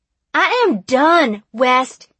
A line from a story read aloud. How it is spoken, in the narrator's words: she shouted